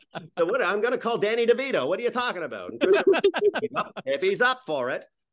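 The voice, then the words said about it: Put-on New England accent. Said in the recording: “I don't know why I was doing a New England accent, but that's my New England accent.”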